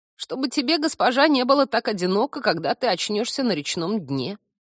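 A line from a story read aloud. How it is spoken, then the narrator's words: Creaky rapid rasp. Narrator (Russian): Одним духом проскрипел корняга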